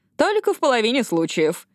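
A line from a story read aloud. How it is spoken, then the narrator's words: Laughing. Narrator (Russian): добавила она, рассмеявшись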